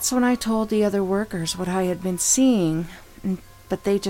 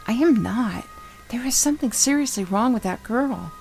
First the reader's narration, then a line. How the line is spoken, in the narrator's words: said in a quiet voice